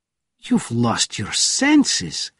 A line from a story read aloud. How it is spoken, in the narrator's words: cried Krupkin